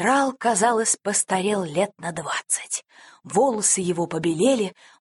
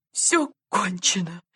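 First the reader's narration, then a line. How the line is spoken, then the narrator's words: Sobbing. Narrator (Russian): рыдал генерал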